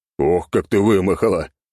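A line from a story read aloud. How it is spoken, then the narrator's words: Laughing. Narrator (Russian): хохотал я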